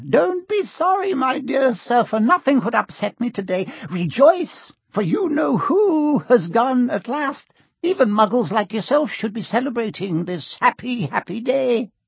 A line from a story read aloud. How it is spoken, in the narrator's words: he said, in a squeaky voice that made passers-by stare